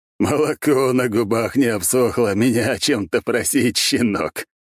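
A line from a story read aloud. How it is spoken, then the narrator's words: Cheerful laughing deep bass. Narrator (Russian): от смеха весело пробасил майор Горемыка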